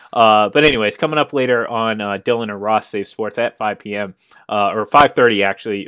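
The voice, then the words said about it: Strained, fading voice. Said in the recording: “I'm starting to lose my voice here. It's been a long week”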